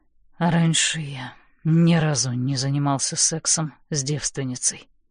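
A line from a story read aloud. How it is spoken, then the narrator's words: Quiet. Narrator (Russian): тихо произносит он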